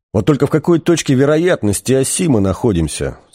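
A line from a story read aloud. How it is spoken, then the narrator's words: Plain. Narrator (Russian): спросил Артур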